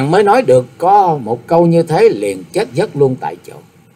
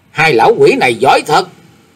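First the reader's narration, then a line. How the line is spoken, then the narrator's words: Shouted. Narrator (Vietnamese): quát bảo Tâm Tâm đại sư cùng với quái nhân áo lam rằng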